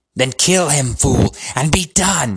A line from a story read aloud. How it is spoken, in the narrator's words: screeched Voldemort